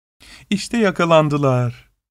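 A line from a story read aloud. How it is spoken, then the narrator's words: Laughing. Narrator (Turkish): diyerek güldü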